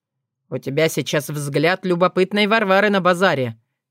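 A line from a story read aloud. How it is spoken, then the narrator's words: Snorting. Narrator (Russian): хмыкнул Филипп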